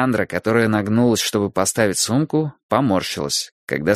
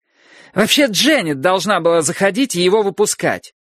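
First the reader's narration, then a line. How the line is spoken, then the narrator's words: Shouting over whining. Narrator (Russian): прокричала она сквозь его повизгивание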